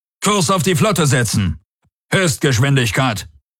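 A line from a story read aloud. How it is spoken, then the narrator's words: Commander calling out. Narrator (German): rief der Feldherr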